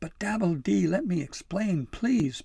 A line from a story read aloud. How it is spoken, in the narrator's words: Pim pleaded